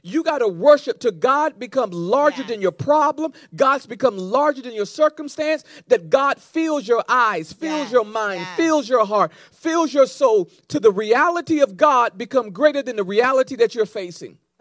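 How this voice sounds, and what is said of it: Loud, yelling preaching voice. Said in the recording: “I feel like I'm yelling. ... You are”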